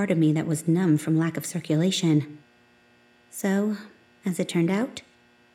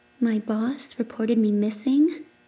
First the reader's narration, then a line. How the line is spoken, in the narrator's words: I croaked